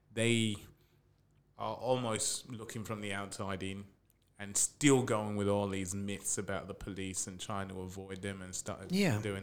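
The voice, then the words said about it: British accent. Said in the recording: “I can pick up your accent. You're from the UK.”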